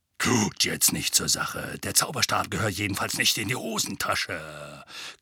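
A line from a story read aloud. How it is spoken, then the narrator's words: Growled. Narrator (German): knurrte Mad-Eye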